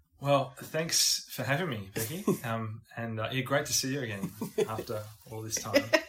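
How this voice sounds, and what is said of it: Australian accent. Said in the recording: “You can tell by his accent that he's not from these parts, but he's in fact from down under.”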